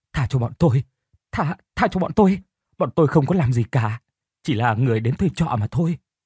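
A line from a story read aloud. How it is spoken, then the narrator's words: Frantic pleading. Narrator (Vietnamese): Tên Hùng và Lành van xin rối rít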